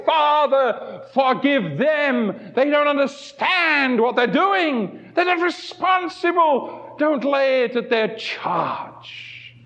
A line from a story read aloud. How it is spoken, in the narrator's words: he cried